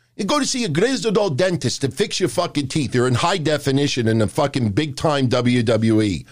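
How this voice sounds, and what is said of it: New York accent. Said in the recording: “I get a lot of flack for my New York accent.”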